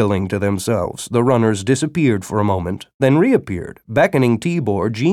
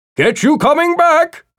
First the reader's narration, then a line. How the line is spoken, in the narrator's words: Jackson yelled after Tibor